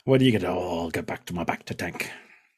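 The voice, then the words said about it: Deliberately bad put-on accent. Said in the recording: “Terrible accent.”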